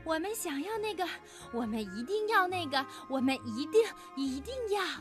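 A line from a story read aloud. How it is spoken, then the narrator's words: Panting heavily. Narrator (Chinese): 他们大口大口地喘着粗气说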